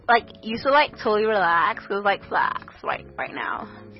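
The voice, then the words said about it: Put-on American accent. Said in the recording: “That's, like, how you do an, like, American accent.”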